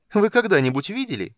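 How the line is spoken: Giggling question. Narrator (Russian): поинтересовался хихикующий голос

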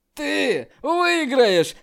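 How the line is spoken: Loud laughter. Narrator (Russian): Мужун И громко рассмеялся

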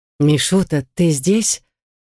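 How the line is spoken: Soft, smiling older woman. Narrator (Russian): Королева-мать мягко улыбнулась

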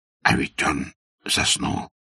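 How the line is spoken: Sudden whisper. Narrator (Russian): шепнул он вдруг Аркадию

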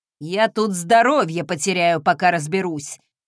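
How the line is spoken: Grumbled. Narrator (Russian): проворчал

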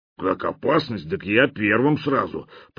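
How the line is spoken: Pleased grumble. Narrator (Russian): пробурчал тот, впрочем, довольным тоном

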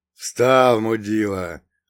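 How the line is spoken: Growled. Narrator (Russian): рыкнул второй

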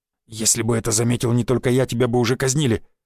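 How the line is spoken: Hissing. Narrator (Russian): прошипел Гвоздев

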